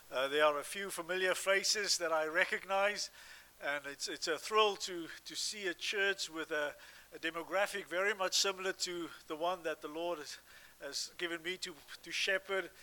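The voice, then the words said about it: South African accent. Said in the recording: “as you can hear, I have a bit of an accent from South Africa”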